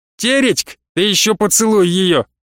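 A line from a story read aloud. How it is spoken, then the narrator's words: Smirking shout. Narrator (Russian): с ухмылкой крикнул кто-то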